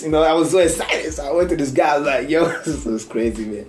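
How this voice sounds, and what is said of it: Thick African accent. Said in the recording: “my thick African accent”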